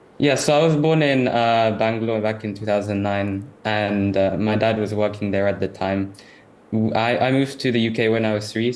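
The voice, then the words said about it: Southeast London accent. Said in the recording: “you speak in a typical Southeast London accent”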